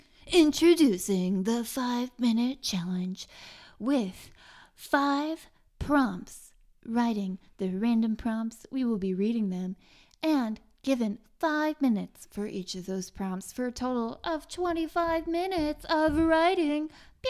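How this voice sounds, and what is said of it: Announcer voice. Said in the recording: “do my announcer voice”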